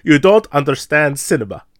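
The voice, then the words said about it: Poor put-on German accent. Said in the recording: “That was a very terrible German accent.”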